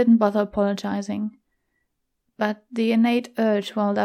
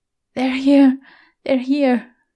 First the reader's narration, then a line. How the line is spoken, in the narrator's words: moaned